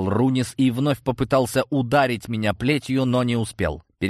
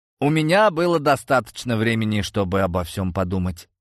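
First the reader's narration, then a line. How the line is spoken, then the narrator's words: Dry. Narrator (Russian): сухо ответил я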